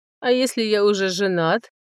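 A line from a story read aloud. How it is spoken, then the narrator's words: Laughing. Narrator (Russian): рассмеялся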